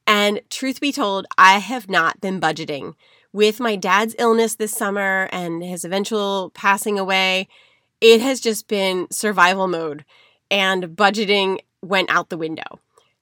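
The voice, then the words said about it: Congested voice from a cold. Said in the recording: “hear it in my voice, but I am fighting a cold. I've been fighting it for weeks.”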